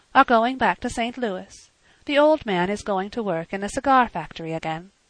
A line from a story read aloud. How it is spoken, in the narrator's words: she said calmly